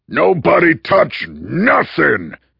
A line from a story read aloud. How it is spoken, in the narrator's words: he roared in his leather-throated drill sergeant's voice